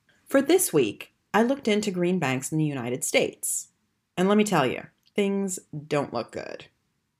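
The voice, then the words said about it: American accent. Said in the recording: “As you can tell from my accent, I'm American.”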